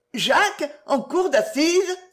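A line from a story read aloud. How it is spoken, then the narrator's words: Exclaiming. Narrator (French): s'écria-t-elle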